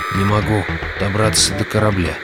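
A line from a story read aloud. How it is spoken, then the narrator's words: Sleepy mumbling. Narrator (Russian): бормотал Реддл в полусне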